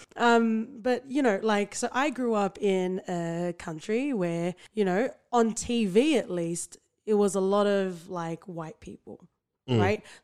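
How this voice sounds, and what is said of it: Australian accent. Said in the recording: “I am a true blue Aussie... this Bergen accent, mate.”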